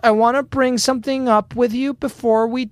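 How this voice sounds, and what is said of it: Sing-songy high-pitched voice. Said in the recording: “you did this like sing-songy high voice”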